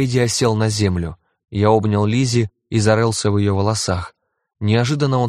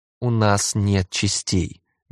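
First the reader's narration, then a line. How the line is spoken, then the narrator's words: Gentle reminder. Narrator (Russian): мягко напомнил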